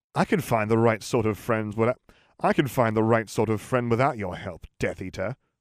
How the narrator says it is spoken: sneered Jim

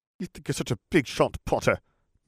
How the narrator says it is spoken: Malfoy snarled

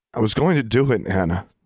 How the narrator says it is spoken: she said hoarsely

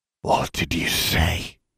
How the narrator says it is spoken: he hissed

